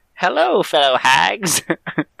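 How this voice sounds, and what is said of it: Old hag character voice. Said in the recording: “This is my best hag impression.”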